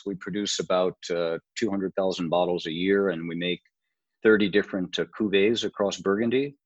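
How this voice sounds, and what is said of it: Slight non-French accent. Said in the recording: “it maybe a slight clue in the accent, but obviously you're not uh, originally French”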